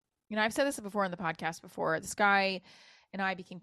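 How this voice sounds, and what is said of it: Usual voice. Nothing is said of it.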